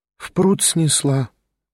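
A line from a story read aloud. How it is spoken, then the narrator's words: Sighed. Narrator (Russian): вздохнула она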